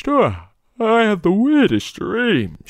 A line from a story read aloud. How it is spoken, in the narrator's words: said sleepily